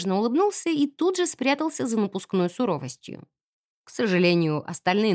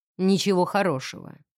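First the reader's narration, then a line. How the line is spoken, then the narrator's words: Gloomy reply. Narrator (Russian): ответил он мрачно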